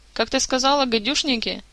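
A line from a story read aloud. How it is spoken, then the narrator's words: Giggling. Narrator (Russian): хихикнул Карлсон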